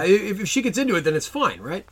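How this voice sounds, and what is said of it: Sarcastic delivery. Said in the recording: “you are being sarcastic.”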